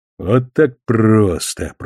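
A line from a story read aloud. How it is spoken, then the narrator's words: Grumbling. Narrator (Russian): проворчал капитан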